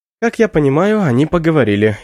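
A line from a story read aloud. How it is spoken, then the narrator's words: Giggling. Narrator (Russian): хихикаю я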